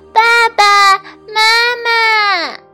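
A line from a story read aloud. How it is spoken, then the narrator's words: Repeated calling. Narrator (Chinese): 它不停地喊啊喊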